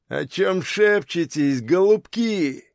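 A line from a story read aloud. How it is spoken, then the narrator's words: Almost growling. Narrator (Russian): Парень не то чтобы говорил, а почти что рычал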